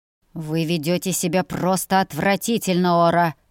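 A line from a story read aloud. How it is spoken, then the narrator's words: Disgusted, through gritted teeth. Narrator (Russian): процедил мужчина, не скрывая своего отвращения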